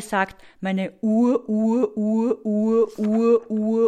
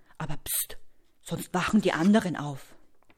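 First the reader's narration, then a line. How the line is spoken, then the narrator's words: Whispered. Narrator (German): flüstert er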